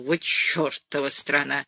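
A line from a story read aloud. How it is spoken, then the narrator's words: Muttering. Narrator (Russian): бормотал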